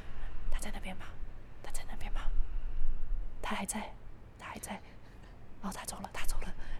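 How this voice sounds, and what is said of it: Scared, very quiet whispering. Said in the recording (Chinese): “他们都超小声……他们很害怕，所以他们很小声”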